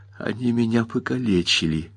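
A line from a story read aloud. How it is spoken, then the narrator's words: Whisper, female. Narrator (Russian): прошептала она Теду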